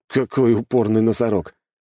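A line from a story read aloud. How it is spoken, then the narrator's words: Snort. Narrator (Russian): хмыкнул я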